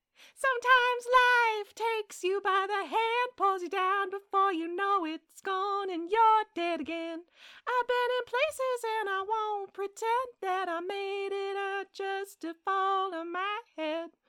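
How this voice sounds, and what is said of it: Sings imitating a band's singer. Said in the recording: “serenade you in my best Foster the People impersonation”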